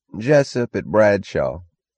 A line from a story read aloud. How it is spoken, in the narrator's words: a drawling voice answered